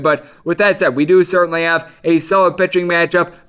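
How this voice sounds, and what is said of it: Wisconsin accent. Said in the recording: “I've got my Wisconsin accent”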